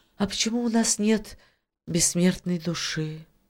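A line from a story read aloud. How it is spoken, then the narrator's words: Sad little mermaid. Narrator (Russian): грустно проговорила русалочка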